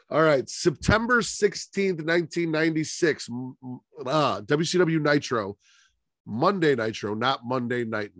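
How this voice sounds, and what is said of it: Stuffy congested voice. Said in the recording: “I am getting over a cold, so I know I'm a little stuffy. My voice might crack a little bit.”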